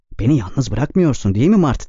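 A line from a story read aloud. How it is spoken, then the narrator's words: Despairing voice. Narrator (Turkish): dedi umutsuz bir sesle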